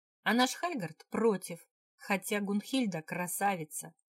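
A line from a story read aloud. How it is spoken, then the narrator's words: Laughing. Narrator (Russian): рассмеялся Мац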